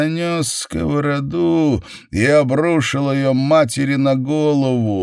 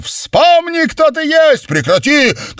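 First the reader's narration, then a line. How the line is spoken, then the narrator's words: Shouting. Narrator (Russian): кричал Джек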